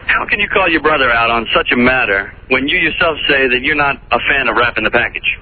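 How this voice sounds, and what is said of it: Put-on radio DJ voice. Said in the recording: “I'm trying to put on my DJ voice for you”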